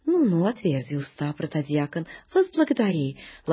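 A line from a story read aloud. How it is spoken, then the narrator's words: Gentle. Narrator (Russian): ласково говорит Преосвященный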